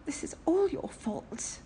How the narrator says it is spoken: Aziraphale moaned in his ear

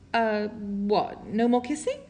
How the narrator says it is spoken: Lo Fei stammers

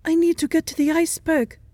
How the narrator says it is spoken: Sherlock gasps

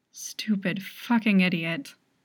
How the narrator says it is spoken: muttered

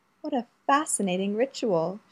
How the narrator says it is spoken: purred

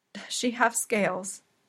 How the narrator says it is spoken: Ariel croaks

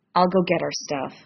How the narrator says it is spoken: Sam mutters

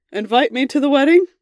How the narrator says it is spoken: shouted over his shoulder in the crowded hallway

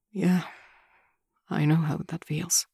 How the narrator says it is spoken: he says quietly

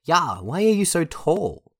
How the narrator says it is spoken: yelled

